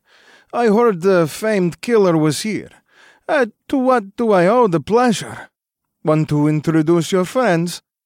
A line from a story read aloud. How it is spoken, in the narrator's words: said with a thick accent